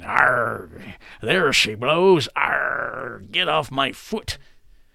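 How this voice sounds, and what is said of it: Pirate voice impression. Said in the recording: “my pirate impression”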